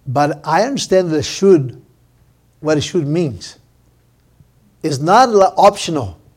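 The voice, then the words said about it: Non-native English accent. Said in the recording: “English is not my first language, as you can hear my accent”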